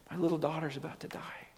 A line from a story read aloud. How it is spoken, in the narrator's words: he implores him earnestly, saying